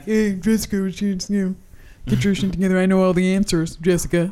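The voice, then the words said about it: Imitates a male character's voice. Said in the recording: “That was a perfect impression of Chang. ... Pretty accurate. He's spot a fucking on.”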